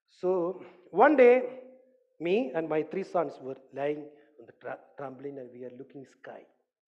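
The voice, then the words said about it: Speaks English with an accent. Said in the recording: “Did you get my accent? Do you want me to slow down?”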